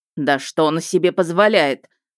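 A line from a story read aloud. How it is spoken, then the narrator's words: Angry. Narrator (Russian): зло сказал Хантхоффер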